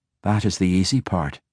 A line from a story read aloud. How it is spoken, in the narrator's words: Catti Bree said